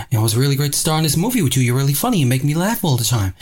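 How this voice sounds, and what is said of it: Mark Wahlberg impression. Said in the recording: “I did the Mark Wahlberg impression ... talking like that all the time ... that's the worst Mark Wahlberg impersonation I've ever heard”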